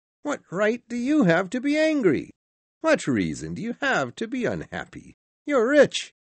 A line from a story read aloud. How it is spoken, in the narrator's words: said the nephew cheerfully